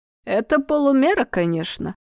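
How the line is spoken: Grumble. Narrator (Russian): проворчал Исон

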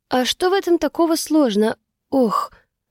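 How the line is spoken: Sharp strained exhale. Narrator (Russian): Резко выдохнула я, когда схватилась за рукоять и чуть не потянула спину

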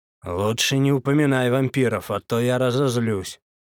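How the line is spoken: Stern mutter. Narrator (Russian): строго пробормотал дядя Коля

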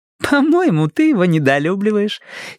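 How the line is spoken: Pleased giggle. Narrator (Russian): хихикнула Тома довольно

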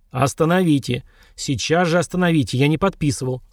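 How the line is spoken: Groaned through teeth. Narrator (Russian): сквозь зубы простонал мужчина

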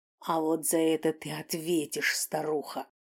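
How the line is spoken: Hiss. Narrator (Russian): прошипел

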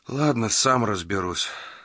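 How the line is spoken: Sighed. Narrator (Russian): вздохнул Магоце

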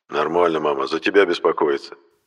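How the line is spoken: Grumbling father. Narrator (Russian): проворчал отец

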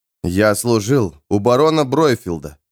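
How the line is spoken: Through clenched teeth. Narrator (Russian): процедил Джоакин

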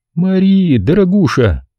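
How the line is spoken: Sad. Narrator (Russian): печально произнесла она

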